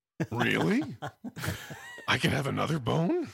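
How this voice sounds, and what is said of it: Imitated voice of a talking dog. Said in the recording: “the same voice that we use when we impersonate my dog talking”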